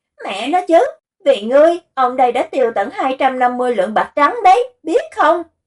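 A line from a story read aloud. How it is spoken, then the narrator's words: Loud shouting close to ear. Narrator (Vietnamese): Du Diệu gào lớn bên tai y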